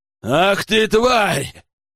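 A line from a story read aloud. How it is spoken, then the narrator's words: Roaring emperor. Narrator (Russian): взревел император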